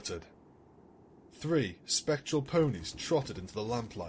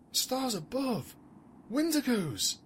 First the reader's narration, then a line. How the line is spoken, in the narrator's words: one of the loyalists breathed